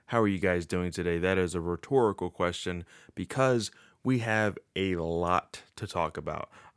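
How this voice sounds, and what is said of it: Slightly odd just-woke-up voice. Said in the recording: “my voice sounds a little weird, I just woke up”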